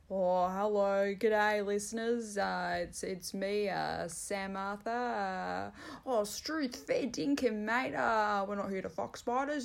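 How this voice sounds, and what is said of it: Imitates another person's voice, Australian slang. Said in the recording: “That was my impersonation of my co-host”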